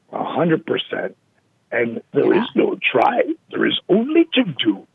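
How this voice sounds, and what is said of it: Yoda impression. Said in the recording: “my Yoda impersonation”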